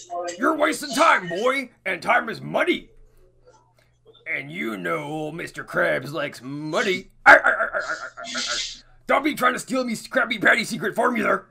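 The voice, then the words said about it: Cartoon crab character voice, strained. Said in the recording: “I could do a pretty good impression of Mr. Krabs as well, honestly... when I do it, it hurts my throat... the Mr. Krabs voice, is it hurts my throat, like, a lot”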